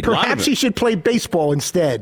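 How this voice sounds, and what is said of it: Angry, sarcastic read. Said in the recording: “I had a little bit of anger and sarcasm.”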